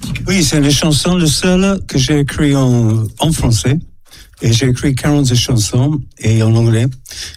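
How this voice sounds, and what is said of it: Slight foreign accent in French. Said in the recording (French): “j'ai un petit accent”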